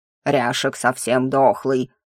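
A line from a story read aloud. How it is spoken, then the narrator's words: Hoarse low bass. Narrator (Russian): выдал рюкзак хриплым баском декана моего факультета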